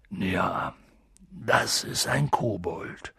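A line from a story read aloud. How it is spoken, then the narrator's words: Quiet. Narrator (German): sagte Hagrid leise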